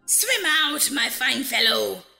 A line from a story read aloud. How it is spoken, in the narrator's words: cried my grandfather